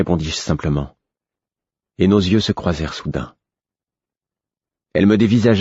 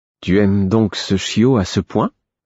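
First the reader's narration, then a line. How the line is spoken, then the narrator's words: Hesitant tone. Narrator (French): d'un ton hésitant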